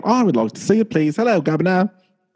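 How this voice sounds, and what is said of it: Put-on British accent. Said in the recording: “how's my dialect work? ... As we go dark in all of UK ... I thought my accent was good”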